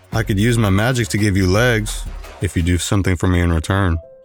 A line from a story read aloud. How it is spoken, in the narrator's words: he said, his rumbling voice shaking his cave